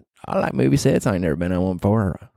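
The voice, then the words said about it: Put-on Southern accent. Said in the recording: “Not sure why I'm talking in a southern accent”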